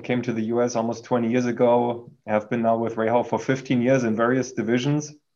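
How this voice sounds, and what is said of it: German accent. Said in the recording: “I've been originally born in Germany. You can hear that from my accent.”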